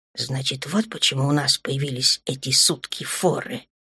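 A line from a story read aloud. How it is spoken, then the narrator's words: Quiet. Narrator (Russian): тихо сказала Дана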